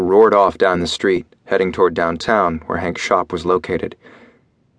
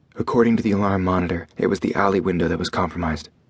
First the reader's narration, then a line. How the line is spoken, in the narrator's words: Cade said in a low voice